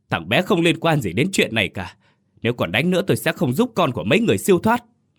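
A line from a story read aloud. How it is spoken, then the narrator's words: Loud shout. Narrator (Vietnamese): Bà quát lớn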